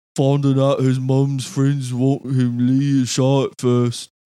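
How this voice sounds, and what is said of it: Imitates another person's voice. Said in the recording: “your best Lee impression”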